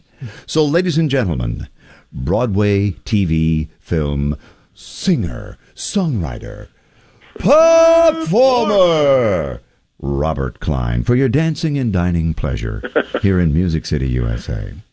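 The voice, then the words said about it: Big booming announcer voice, Gary Owens. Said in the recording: “It sounded like, for a second there, I thought it was Gary Owen ... he did do the big voice announcer thing there in Burbank”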